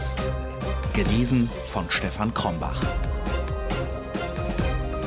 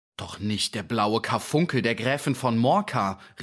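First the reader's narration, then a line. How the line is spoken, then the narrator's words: Interrupting call. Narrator (German): rief dazwischen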